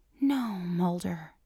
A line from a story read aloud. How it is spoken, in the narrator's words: she whispers